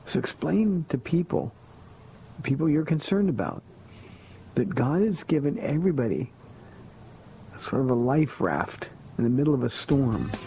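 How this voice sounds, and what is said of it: Worn, strained speaking voice. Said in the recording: “Sorry for my voice, but that's what happens when you're out in nature for 3 days.”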